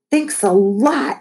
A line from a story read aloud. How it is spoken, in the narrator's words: howled, her face flushed red as if she'd been crying